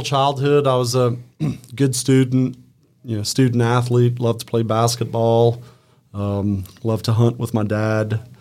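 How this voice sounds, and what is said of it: Cajun Louisiana accent. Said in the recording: “I can hear even in your voice, you've got that kind of accent ... that Opelousas slang”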